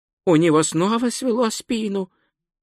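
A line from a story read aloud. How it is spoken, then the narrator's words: Whispered. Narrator (Russian): прошептал Двацветок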